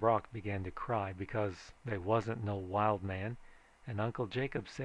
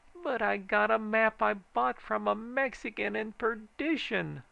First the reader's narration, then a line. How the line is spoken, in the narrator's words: hollered Uncle Jacob